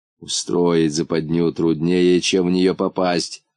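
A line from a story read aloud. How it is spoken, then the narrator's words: Grumbling. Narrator (Russian): ворчал муфта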